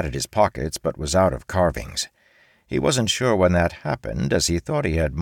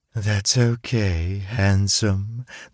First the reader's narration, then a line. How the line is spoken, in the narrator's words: the woman purred